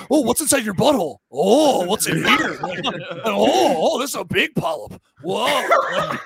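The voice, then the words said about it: Silly dog character voice. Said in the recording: “I just think it's a dog's voice. Like, I'm just doing the dog's voice. I'm just doing a voice ... Just doing that voice”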